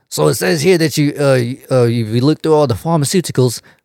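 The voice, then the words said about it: Failed American accent slipping into British. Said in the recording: “He cannot do that accent to save his life... it just slips out... Just be British.”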